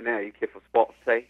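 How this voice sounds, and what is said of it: Put-on Cockney accent. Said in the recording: “That's a little bit of Cockney right there.”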